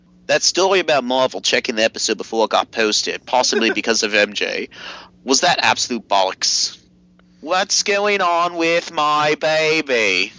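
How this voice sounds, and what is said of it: Put-on Australian accent. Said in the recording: “let's do Australian accent.”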